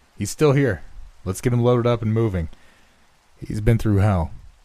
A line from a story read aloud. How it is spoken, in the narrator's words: called out